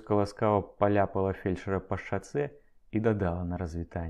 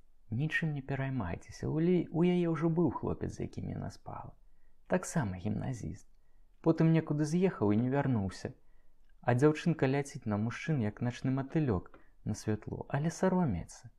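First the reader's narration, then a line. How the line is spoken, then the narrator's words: Soft whisper in ear. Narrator (Belarusian): яна ціхенька шапнула яму на ўха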